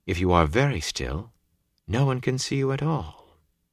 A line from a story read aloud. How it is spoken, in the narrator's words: Celine said quietly